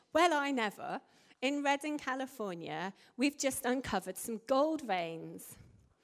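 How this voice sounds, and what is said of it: Bad put-on American accent. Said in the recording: “A worse American accent.”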